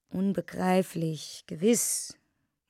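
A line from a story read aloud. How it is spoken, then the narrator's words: Murmuring. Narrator (German): murmelte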